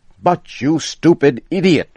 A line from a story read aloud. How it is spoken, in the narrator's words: shouted Mr